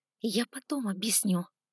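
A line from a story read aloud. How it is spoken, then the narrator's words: Whisper. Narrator (Russian): шепнула я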